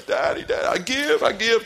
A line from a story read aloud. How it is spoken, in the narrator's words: screaming